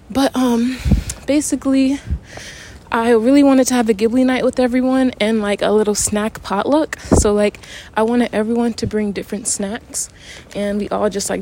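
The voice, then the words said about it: Out of breath, panting. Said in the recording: “we have a big hill. Whew. A big hill, so sorry if I'm out of breath.”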